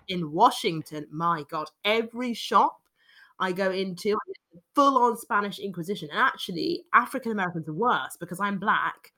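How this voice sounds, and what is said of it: British accent. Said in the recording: “my accent ... a British accent”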